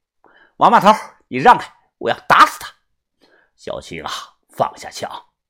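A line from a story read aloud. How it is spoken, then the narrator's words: Stern harsh woman. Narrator (Chinese): 青姨……厉声的说道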